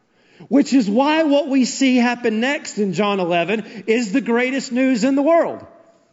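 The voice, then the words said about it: Excited yelling. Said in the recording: “It's why I'm yelling. It's why I'm excited.”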